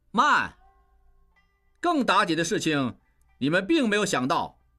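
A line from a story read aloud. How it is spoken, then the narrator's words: Loud. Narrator (Chinese): 应英大声说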